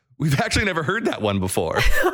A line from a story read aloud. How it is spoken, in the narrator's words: In between laughs and crying to catch his breath, his cellmate replied